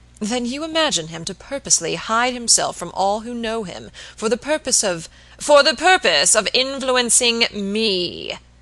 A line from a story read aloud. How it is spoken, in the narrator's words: exclaimed Mr